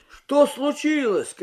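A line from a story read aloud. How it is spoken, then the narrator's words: Confused shout. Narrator (Russian): крикнул Юрий, ничего не понимая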